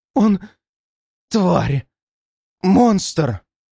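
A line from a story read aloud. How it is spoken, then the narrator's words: Panicked gasp. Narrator (Russian): выдохнула женщина, впадая в какую-то необъяснимую панику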